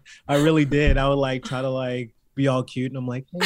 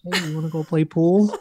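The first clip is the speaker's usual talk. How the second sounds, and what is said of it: Cute, sweet coaxing voice. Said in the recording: “in my cutest voice”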